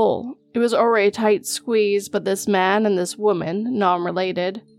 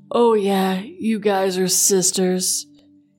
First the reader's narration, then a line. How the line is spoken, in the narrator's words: in an incredibly perverted tone